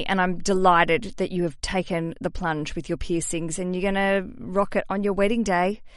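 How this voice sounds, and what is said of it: Australian accent. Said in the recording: “as I'd say with my Australian accent.”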